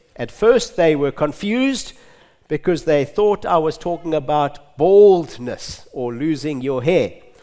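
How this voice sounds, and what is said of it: Zimbabwean English accent. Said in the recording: “my Zimbabwe accent... I haven't lost my Zimbabwe accent”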